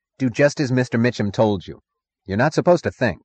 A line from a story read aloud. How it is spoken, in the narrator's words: The road foreman snapped